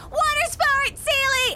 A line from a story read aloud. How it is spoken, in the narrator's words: she yelling